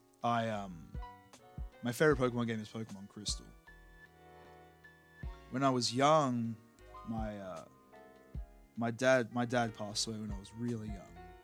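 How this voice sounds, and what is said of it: Australian accent. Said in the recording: “I live in Australia, if you can't tell by the accent”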